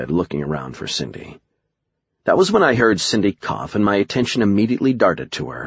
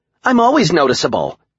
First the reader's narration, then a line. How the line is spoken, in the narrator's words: Cindy snapped